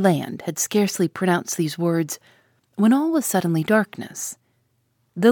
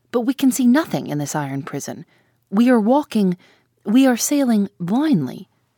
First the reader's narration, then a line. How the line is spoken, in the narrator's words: exclaimed the harpooner